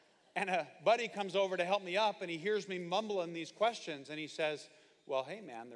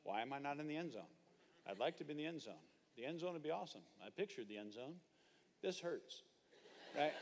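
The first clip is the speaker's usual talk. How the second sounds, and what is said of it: Dazed mumbling. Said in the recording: “I'm mumbling”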